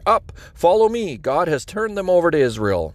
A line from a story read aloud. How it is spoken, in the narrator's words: Jonathan shouted to his armor-bearer